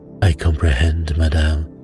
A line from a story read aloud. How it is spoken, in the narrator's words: said Poirot soothingly